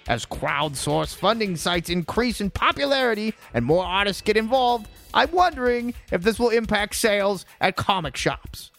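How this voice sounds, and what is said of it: Imitates another person's voice. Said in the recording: “My Keith Silva impersonation.”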